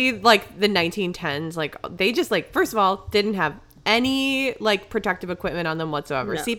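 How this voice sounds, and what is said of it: Usual voice. Nothing is said of it.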